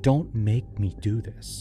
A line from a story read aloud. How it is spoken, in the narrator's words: He'd whisper